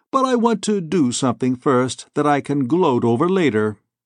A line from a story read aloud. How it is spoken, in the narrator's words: said Morgan blandly